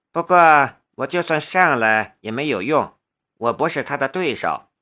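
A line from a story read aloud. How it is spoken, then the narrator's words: Flat, indifferent. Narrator (Chinese): 关胜男淡淡的道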